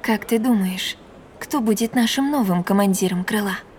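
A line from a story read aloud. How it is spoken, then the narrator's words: Whisper from behind. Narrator (Russian): прошептала Надин у меня за спиной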